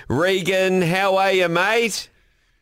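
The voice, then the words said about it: Put-on Australian accent. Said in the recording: “Was that your Australian accent? ... Did I kind of put an Aussie accent on? ... very nice.”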